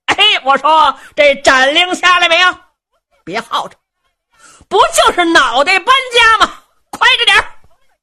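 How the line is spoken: Shouting. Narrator (Chinese): 程大爷在辕门外头喊声了

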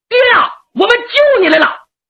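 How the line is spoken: Shouting. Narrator (Chinese): 五郎喊上

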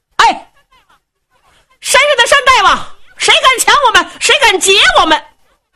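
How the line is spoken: Shouting and cursing. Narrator (Chinese): 见山就喊，见树林也喊，就这么一通的喊，一通的骂呀

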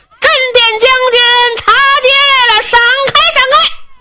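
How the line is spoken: Crowd shouting. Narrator (Chinese): 铜锣开道人声呐喊

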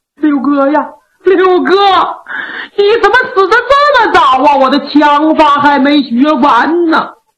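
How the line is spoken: Heartbroken wailing lament. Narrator (Chinese): 那八王一边哭一边数落，一边数落一边哭，只哭得肝肠寸断

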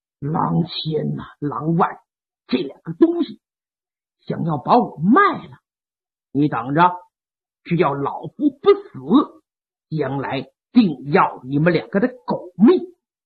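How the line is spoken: Through gritted teeth. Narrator (Chinese): 潘仁美一咬牙

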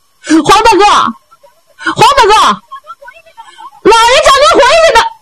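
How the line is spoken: Shouted from behind. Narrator (Chinese): 后边就喊上了

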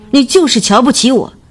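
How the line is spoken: Hurt, loud shout. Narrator (Chinese): 徐林的心被刺痛了，他大声喊道

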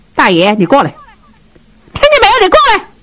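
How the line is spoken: Woman calling out. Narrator (Chinese): 他媳妇儿说话了 喊上了

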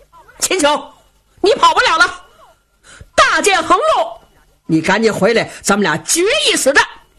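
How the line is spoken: Shouting. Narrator (Chinese): 他嘴里喊

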